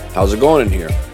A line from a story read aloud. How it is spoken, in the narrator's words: I said calmly